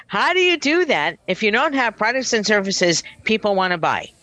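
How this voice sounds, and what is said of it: Mock corporate executive voice. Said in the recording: “in my best CFO voice”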